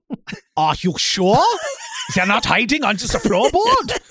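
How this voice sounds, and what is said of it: Put-on German accent. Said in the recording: “with a German accent”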